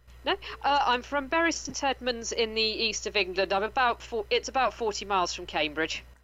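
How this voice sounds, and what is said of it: Received pronunciation English accent. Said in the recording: “I have a fairly generic received pronunciation hmm. accent.”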